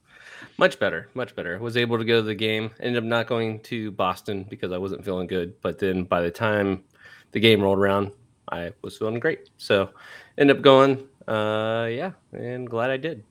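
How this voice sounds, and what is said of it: Slightly nasal, congested voice. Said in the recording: “You sound a little nasally. ... like I don't feel congested, but yeah, a little bit.”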